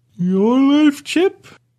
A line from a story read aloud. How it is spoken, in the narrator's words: I asked, rubbing my eyes as I yawned